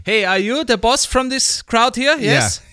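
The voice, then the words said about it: Thick Austrian accent in English. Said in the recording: “Just say something in Austrian. You know you got a thick, in English, you know you got a thick Austrian accent. ... Yeah, yeah, that's good.”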